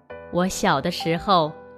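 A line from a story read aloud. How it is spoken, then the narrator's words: Laughing. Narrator (Chinese): 伯父笑着说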